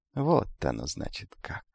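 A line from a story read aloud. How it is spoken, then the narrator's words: Thoughtful, to himself. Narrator (Russian): задумчиво произнес юноша, обращаясь исключительно к самому себе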